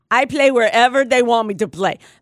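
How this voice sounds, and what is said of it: Bad put-on Spanish accent. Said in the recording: “That's a bad Spanish accent.”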